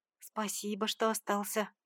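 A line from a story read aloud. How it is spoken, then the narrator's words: Quiet speech. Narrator (Russian): произнесла негромко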